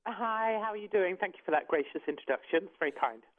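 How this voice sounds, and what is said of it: Obvious British accent. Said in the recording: “She is from England. She has a very obvious British accent”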